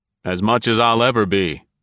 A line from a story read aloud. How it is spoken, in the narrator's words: grunted